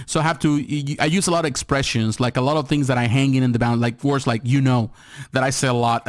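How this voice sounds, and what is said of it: Hispanic-accented English, fast speech. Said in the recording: “Hispanic ... I speak so fast ... even with my, you know, my accent ... English is not my first language”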